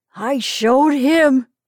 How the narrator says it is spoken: he cried

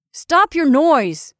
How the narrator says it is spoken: angrily cried the tall man from his hidden den

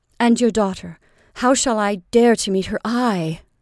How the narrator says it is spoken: exclaimed Reuben

